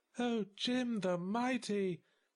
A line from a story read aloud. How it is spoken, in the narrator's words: she cooed